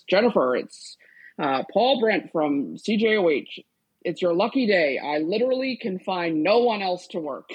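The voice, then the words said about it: Big booming broadcaster voice. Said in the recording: “in a big broadcaster voice,”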